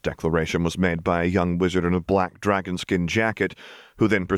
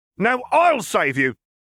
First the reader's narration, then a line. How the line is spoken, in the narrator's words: shouted another of his type